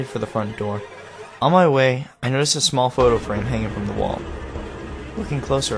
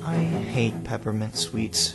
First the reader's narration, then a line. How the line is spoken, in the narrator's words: said, her voice almost a whisper